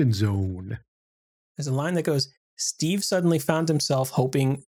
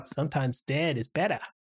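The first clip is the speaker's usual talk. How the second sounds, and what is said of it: Imitates another person's voice, badly. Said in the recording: “my really, really bad Fred Gwynne impression”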